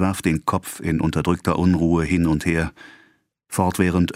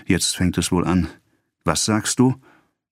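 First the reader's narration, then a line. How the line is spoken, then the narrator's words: Murmur. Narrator (German): murmelte sie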